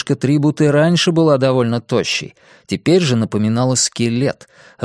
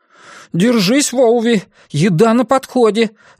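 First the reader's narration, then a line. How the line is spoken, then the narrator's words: Excited exclamation. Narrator (Russian): воскликнул Илари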